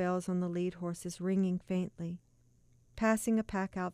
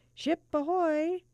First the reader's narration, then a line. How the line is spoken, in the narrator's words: cried